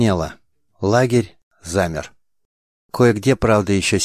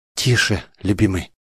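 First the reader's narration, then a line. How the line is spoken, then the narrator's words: Trembling whisper. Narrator (Russian): зашептала Мандана, которая трясло не меньше юного любовника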